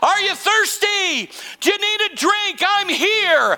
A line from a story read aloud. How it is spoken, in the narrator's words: he's proclaiming loudly